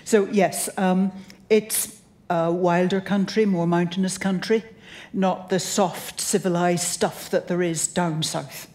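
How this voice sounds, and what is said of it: Northwestern British accent. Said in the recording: “I come from the north and west of Britain, British Isles. My accent isn't just funny here, it's funny in Britain as well”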